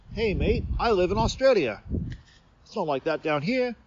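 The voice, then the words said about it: Poor put-on Australian accent. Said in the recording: “Terrible Australian accent”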